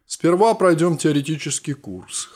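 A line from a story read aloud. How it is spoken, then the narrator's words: Snorted. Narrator (Russian): хмыкнул тот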